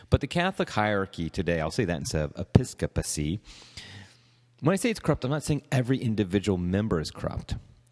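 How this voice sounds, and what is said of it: Slightly congested, under-the-weather voice. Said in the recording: “you might notice I have coming over a cold. That's why my voice might sound a little bit differently than normal.”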